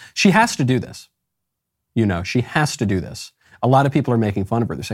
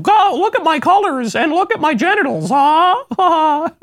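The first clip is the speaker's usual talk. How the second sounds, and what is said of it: Imitates a young child's voice. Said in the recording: “That's a young child impression.”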